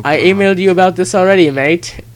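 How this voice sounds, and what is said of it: Put-on Australian accent. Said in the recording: “I'm Australian and asked you not to do the accent, and you did the accent. ... And I'm going to do it again right now.”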